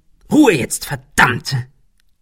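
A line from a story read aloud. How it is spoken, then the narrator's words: Hissing, snapping. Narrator (German): fauchte Ben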